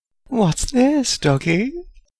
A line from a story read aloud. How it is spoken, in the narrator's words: Bella cooed